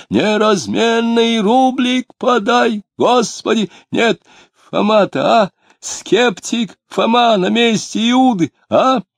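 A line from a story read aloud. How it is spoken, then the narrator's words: Nasal old man's chant. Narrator (Russian): он пропел гнусавым голосом старенького дичка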